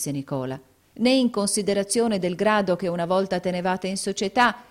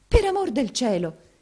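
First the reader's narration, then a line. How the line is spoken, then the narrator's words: Dismayed interrupting exclamation. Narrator (Italian): esclamò Maddalena intervenendo tutta sgomenta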